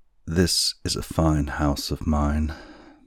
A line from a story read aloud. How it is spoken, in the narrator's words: said the man, and bitterly sighed